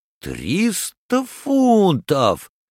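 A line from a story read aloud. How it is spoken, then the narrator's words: Exclaimed, upset. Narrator (Russian): воскликнул Паспарту, который тронут был только пеней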